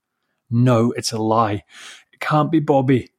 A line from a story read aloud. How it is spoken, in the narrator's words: sobbed